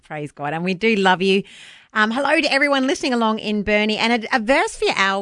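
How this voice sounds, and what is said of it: New Zealand accent. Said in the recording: “a bit of a Kiwi twang to it. Sorry, that's my accent.”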